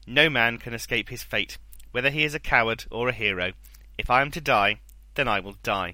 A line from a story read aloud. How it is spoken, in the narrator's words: Hector said firmly